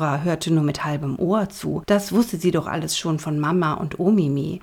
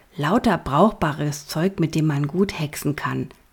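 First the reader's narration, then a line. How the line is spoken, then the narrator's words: Plain. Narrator (German): sagte der Junge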